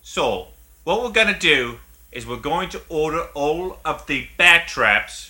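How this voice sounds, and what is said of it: Michael Caine impression. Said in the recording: “That is an incredible Michael Caine impression ... It's fucking really good ... a really good Michael Caine impression.”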